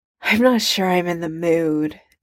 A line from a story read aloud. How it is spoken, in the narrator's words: Tony sighs